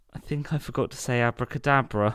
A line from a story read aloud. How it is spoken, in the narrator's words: faltered Paddington